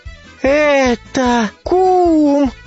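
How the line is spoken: Cried out. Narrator (Russian): вскрикнул кум

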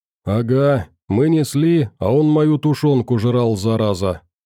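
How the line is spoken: Joining in, sighing. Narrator (Russian): Подключился Кух и вздохнул

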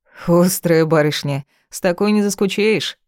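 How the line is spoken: Approving snort. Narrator (Russian): одобрительно хмыкнул

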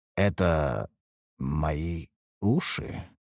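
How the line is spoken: Muttering. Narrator (Russian): пробормотал

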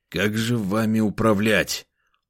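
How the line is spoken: Irritated question. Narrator (Russian): уже в который раз раздраженно спросил я

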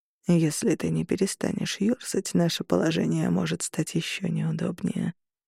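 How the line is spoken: Almost tender, close to ear. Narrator (Russian): произнес мне на ухо почти ласково

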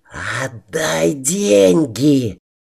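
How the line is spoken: Hissing like a snake. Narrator (Russian): Змеей прошипел барон

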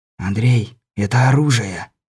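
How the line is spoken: Whisper in ear. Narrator (Russian): опять шепнул на ухо Лунёву Сан Саныч

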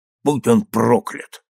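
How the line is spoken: Grumbling. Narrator (Russian): пробурчал он

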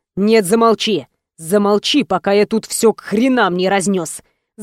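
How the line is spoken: Angry growl. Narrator (Russian): зарычал Рома

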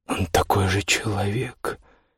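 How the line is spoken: Quiet. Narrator (Russian): тихо сказал Манфред

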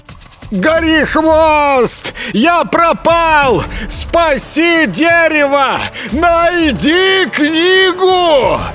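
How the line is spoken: Desperate shouting, struggling. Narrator (Russian): кричал ему вслед распут, беспомощно барахтающийся в сетях

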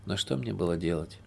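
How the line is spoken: Dejected speech. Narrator (Russian): Уныло проговорил Сергей

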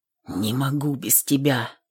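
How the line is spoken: Whispered. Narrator (Russian): прошептал

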